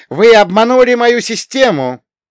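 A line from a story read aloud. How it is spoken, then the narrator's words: Shouting. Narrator (Russian): закричал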